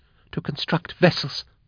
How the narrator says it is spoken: gasped Jaff

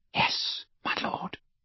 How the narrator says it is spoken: whispered Bellatrix, and her eyes swam with tears of gratitude again

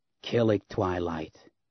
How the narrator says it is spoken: a harsh female voice croaked

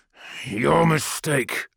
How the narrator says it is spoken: I snarled

